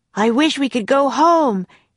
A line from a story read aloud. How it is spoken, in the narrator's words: he shouted